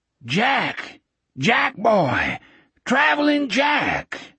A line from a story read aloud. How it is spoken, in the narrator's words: Speedy's voice rose over the washing machine roar of an old flathead 6 engine